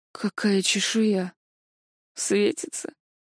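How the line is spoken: Mumbled. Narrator (Russian): промямлил Ришелл

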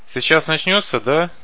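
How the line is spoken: Cheerful question. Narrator (Russian): бодро спросил Каша

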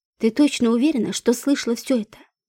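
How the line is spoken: Insinuating. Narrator (Russian): вкрадчиво сказала

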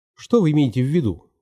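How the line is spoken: Plain. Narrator (Russian): спросил я

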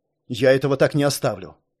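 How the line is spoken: Displeased grumbling. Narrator (Russian): Недовольно ворчал аристократ

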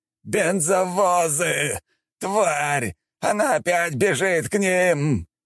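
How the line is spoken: Khan shouting. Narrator (Russian): прокричал хан

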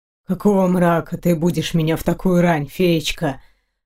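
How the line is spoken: Growled. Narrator (Russian): прорычал он

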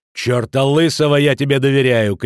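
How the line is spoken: Shout. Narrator (Russian): крикнул Футаки

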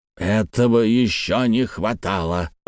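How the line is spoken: Grumbled. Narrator (Russian): проворчал Мастон

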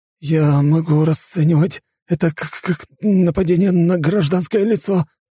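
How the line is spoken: Trembling voice. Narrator (Russian): дрожащим тоном произнес Кондрашов

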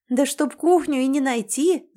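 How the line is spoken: Laughing. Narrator (Russian): засмеялась

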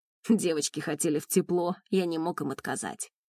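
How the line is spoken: Snorting. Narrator (Russian): хмыкнул он

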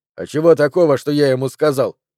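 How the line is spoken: Snapping young man. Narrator (Russian): огрызнулся молодой

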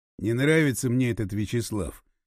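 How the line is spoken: Sigh. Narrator (Russian): вздохнул Лев Николаевич

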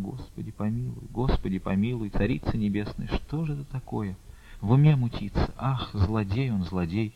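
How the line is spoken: Convulsive sobbing. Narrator (Russian): судорожные рыдания прервали речь

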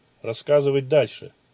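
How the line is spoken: Gloomy. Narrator (Russian): мрачно произнес Ичиро

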